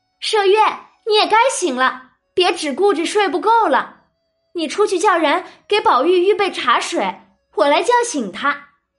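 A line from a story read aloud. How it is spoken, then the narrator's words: Calling to wake someone. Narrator (Chinese): 晴雯便叫醒麝月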